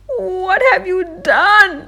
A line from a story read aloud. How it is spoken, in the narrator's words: she cried out